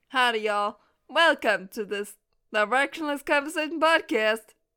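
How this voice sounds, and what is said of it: Mixed-up put-on accents. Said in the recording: “That was like 5 accents in one”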